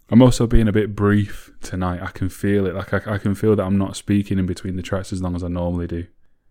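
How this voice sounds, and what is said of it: Tired, strained, rough voice. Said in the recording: “my voice sounds terrible today ... So my voice is pretty fried. ... if I sound a bit ropey.”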